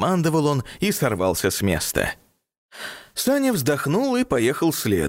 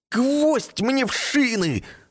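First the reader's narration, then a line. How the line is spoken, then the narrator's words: Exclamation. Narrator (Russian): воскликнул Ник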